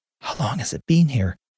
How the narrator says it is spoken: She asked in a hushed tone

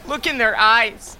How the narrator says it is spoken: the cultist shouted

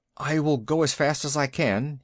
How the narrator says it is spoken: he said anxiously

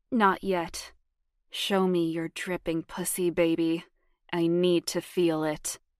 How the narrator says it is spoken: said in a thick voice

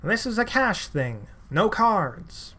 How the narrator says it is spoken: An older man loudly announces

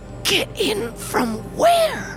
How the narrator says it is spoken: He whispered

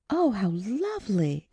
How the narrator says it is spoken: exclaimed Audrey

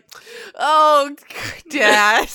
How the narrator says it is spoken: almost keels over in laughter

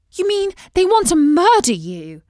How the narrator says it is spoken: exclaimed Beatrice

